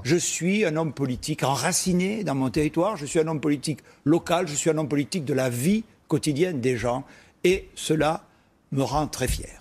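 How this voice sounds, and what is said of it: Southwest French regional accent. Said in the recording (French): “Un accent du Sud-Ouest”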